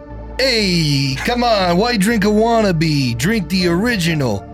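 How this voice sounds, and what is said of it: Put-on New York accent. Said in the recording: “Do you do a good New York accent? ... So that's a yes ... with that New York accent”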